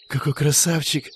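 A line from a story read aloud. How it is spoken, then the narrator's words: Whispering in the audience. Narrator (Russian): Раздался шепоток в зрительном зале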